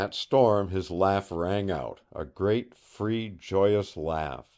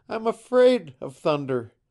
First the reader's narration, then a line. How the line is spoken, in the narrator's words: he heard her voice, half laughing, half broken, saying